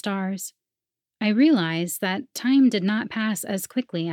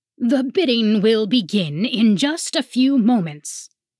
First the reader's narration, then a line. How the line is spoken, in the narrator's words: the booming voice of the auction master says